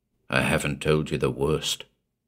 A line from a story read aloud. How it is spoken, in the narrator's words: Keene said